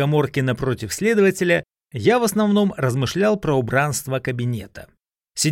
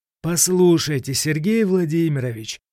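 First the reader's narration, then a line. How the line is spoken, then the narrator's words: Said wearily. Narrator (Russian): устало сказал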